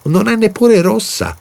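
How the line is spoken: Shouting. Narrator (Italian): ha gridato

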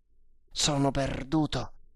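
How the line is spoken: Frightened murmur. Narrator (Italian): mormorò con spavento

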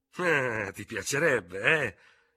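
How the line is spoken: Exclaiming to himself. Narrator (Italian): esclamò fra sé il tenente d'Hubert

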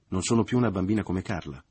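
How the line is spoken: Mother, resentful and moved. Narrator (Italian): continuò la madre in tono risentito e commosso

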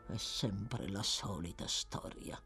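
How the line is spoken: Murmuring to oneself. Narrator (Italian): mormorò tra sé

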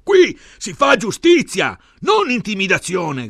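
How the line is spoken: Shouting. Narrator (Italian): gridava Bene

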